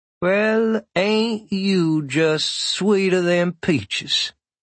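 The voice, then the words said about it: Put-on Southern US accent. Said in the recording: “affects a southern accent, which she must have picked up while living in Asheville, North Carolina”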